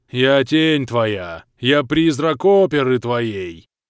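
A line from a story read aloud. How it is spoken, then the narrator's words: Sepulchral howl. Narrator (Russian): За могильным голосом провыл Влас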